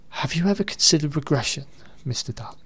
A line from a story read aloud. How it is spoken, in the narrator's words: Without blinking or shifting his gaze from Truman's own horrified face, Stanford muttered breathlessly